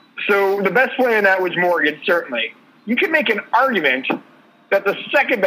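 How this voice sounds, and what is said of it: Usual voice. Nothing is said of it.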